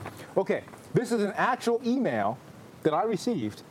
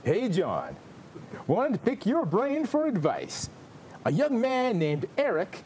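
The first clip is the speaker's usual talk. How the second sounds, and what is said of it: Imitates a radio host's dedication voice. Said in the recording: “in a Casey Kasem voice, like it's a long-distance dedication”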